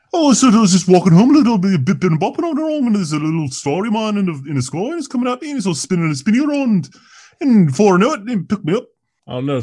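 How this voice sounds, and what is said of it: Imitates another person's accent. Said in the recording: “I'm gonna give her a Paul McCartney accent.”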